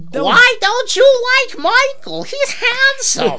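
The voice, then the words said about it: Old lady mom character voice. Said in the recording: “good impression, though. Pretty good impression. ... I like your mom character. It's also your grandma character. ... any old lady character.”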